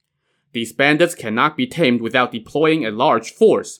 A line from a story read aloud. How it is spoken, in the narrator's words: Premier Cai said